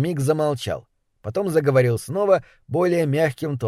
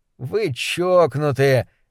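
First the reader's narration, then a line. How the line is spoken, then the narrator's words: Sighing. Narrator (Russian): Немрод вздохнул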